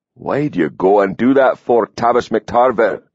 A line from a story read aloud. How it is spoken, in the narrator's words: he grumbled